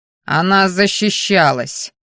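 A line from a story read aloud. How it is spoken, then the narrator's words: Growling. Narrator (Russian): рыкнул Керриан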